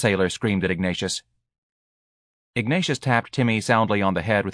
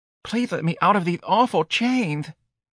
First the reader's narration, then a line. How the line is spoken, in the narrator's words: the sailor pleaded